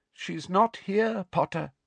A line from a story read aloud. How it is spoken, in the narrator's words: said Madame Pumphrey sadly